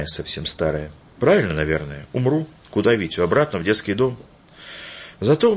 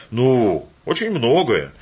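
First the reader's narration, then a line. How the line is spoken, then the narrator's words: Cheerful grandmother. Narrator (Russian): весело сказала бабушка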